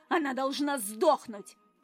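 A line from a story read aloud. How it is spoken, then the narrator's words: Furious growl. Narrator (Russian): рыкнула невеста, все еще в бешенстве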